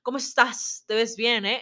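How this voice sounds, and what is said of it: Imitates a famous singer's accent. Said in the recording (Spanish): “imitan al acento de Luis Miguel”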